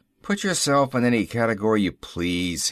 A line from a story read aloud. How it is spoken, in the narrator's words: he grumbled